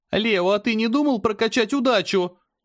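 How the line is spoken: Yelling, nearly losing voice. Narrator (Russian): заорала Аня, едва не сорвав голос

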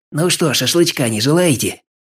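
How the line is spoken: Hoarse creaking. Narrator (Russian): хрипло проскрипел Чёр

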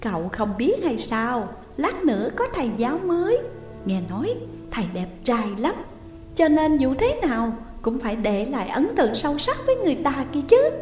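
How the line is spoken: Sweet smiling voice. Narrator (Vietnamese): Diệp Hàn mỉm cười ngọt ngào nói

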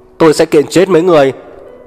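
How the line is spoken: Angry loud bellowing. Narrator (Vietnamese): Trưởng khoa tức giận, gào ầm ĩ

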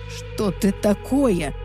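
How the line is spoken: Panicked trembling blurt. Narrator (Russian): В панике выпалил он дрожащим голосом

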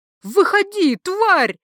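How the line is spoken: Sudden yell outside. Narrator (Russian): вдруг заорали под окном

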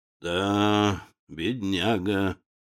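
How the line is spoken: Sigh. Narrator (Russian): вздохнул еще раз становой

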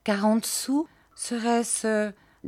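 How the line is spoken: Timid, hesitant. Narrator (French): dis-je timidement après quelque hésitation

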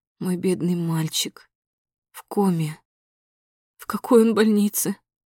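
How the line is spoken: Asking through sobs. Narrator (Russian): Спрашиваю сквозь рыдание

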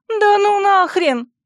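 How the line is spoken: Yelled. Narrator (Russian): завопила я

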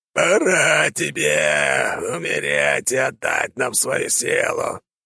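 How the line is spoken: Eerie zombie voice. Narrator (Russian): жутким голосом произнес зомби

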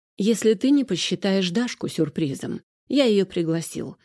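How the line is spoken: Plain. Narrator (Russian): сказал Арсений

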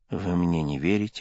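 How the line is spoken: Mumbling. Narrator (Russian): бормотал

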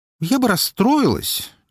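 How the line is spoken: Slightly hurt sigh. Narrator (Russian): немного обиженно вздохнула

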